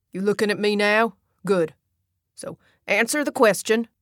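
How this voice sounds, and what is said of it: Kentucky accent. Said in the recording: “Same Kentucky accent”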